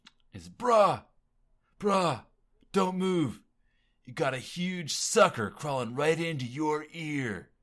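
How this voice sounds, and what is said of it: Exaggerated California surfer accent. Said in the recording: “In the most California accent possible... he's really cranking up the surfer talk”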